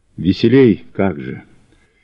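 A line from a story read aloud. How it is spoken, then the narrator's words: Muffled reply. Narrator (Russian): отозвалась она глухо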